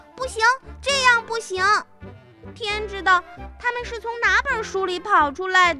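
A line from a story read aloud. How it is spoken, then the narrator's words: Screaming. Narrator (Chinese): 米娜尖叫起来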